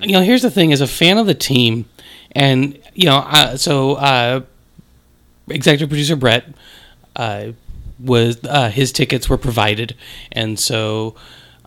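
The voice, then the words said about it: Voice slightly off, strained. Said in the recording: “My voice is a little off. I was sobbing by about the end of the third quarter, so you know my voice just isn't quite there.”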